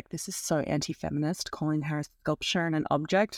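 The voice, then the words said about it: Put-on American accent. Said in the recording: “I like your American accent.”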